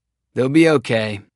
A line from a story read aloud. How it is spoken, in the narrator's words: Lane said